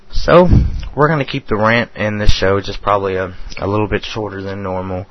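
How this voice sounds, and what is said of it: Nasal, congested voice. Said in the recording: “My allergies are kicking my ass. So if I sound very nasal”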